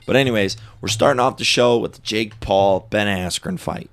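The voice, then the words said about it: Congested-sounding voice. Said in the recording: “I have allergies going on. Allergies ... I got allergies. You can hear it in my voice.”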